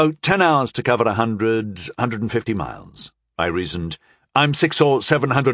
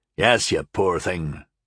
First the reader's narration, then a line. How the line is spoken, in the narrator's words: Asterol said dryly